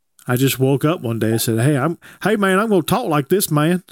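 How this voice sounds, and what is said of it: South Georgia Southern accent. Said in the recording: “that's just what y'all do in South Georgia ... this is the accent.”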